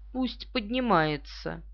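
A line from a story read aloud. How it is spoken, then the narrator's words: Giggling. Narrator (Russian): Девушка хихикнула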